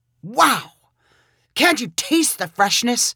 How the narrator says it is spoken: cried

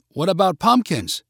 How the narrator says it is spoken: cried Lena

